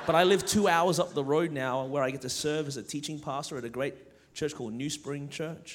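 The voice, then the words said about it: Australian accent. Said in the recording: “Born and raised in Melbourne, Australia, okay? That's the reason my voice is this way.”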